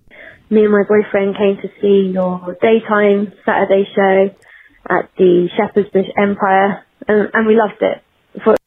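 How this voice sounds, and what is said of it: A nice-sounding accent. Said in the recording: “you got a beautiful accent, too. That accent is... Now, on the women, it sounds nice”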